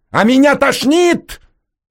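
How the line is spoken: Shouted outburst. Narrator (Russian): выкрикнул он

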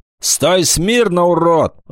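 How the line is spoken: Shouting. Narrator (Russian): закричал рыцарь

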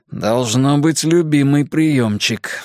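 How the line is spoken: Sigh. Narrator (Russian): вздохнул Драк Кайнен

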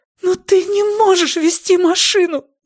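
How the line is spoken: Wailing. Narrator (Russian): взвыла Ли

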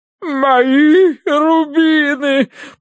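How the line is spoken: Sobbing woman. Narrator (Russian): прорыдала она полковнику

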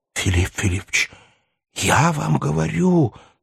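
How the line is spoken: Passionate exclamation. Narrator (Russian): страстно воскликнул Барменталь

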